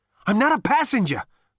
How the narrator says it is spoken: panted Zaphod

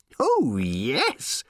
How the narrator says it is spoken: squealed the little robot

